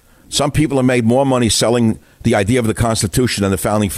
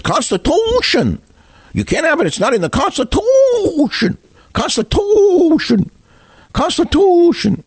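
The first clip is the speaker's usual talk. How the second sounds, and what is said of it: Mocking squeaky high voice. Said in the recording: “squeaky voice”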